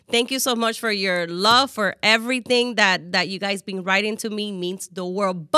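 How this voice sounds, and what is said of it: Speaks with a noticeable accent. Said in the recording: “I got an accent”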